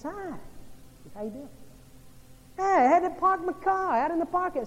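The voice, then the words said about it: Imitated upstate New York accent. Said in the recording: “I'm from upstate New York... His accent gives him away that he's not from this part of the world”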